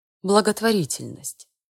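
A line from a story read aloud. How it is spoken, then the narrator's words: Sigh. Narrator (Russian): Рад вздохнул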